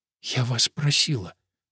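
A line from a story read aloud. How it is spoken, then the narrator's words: Whisper. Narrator (Russian): прошептала она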